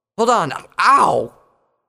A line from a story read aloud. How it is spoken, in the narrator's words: He yelped in pain when his teeth clamped down on his tongue